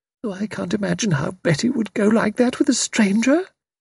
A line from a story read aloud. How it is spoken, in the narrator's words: Sprott murmuring in a dazed fashion